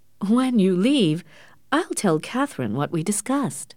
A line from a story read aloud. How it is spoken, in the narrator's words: said with a little laugh